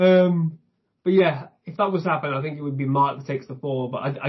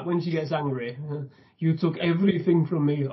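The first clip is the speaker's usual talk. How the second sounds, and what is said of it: Elizabeth Olsen's character accent impression. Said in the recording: “Elizabeth Olsen ... it creeps in when she gets angry ... I heard the accent”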